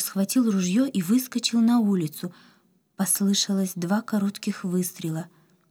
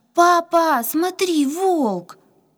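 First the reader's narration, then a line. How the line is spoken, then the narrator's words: Frightened scream. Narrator (Russian): Катя … задрожав от страха, закричала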